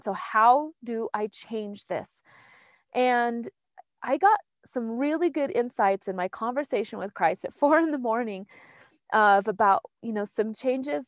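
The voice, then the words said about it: Emotional, shaky voice. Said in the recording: “I'm a little emotional”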